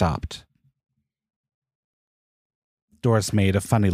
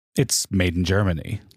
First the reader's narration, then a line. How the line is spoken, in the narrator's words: Larry said